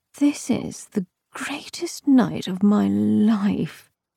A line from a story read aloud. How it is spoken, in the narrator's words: murmured breathlessly